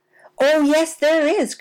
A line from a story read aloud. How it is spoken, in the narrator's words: cried Sammy Jay, who couldn't possibly keep still any longer